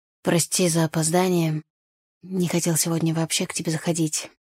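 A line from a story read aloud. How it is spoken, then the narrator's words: Hoarse. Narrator (Russian): хрипло сказал он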